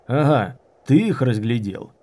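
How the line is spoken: Sharp question. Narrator (Russian): резко спросил Дымокур

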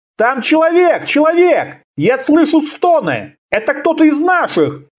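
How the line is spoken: Crowd shouting. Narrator (Russian): закричали в шеренгах

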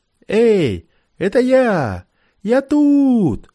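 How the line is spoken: Fearful shout. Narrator (Russian): крикнул он, опасаясь еще и от своих заработать на орехи

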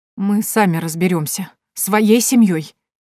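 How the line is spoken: Trembling voice. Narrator (Russian): дрожащим голосом ответила Нино

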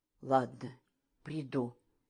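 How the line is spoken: Whispered. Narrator (Russian): прошептала она

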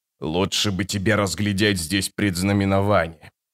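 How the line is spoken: Clan chief muttering. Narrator (Russian): пробормотал вождь клана

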